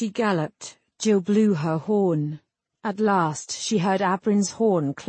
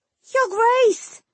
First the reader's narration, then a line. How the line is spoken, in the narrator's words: Jill screamed